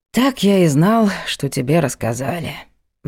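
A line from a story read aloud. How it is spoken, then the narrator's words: Sigh. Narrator (Russian): вздохнул Влад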